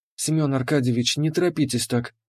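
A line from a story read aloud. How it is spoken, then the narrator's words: Calm. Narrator (Russian): спокойно сказала Леандра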